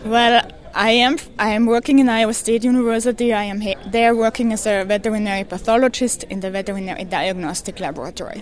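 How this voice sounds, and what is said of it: Austrian-accented English. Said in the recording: “that is not an Iowa accent ... I'm originally from Austria.”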